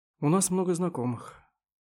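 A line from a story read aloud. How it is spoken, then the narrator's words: Sigh. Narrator (Russian): вздохнул Ваккер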